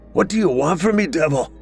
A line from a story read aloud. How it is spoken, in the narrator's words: She screamed and struggled frantically to free herself